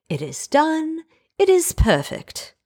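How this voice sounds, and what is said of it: Put-on British accent. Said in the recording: “I don't know why I felt like saying that in a British accent. I just felt like it needed to be said in a British accent.”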